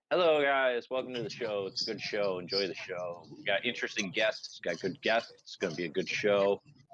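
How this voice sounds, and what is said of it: Imitates a podcast host's voice. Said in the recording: “I do a good impression of their host... I can do their host.”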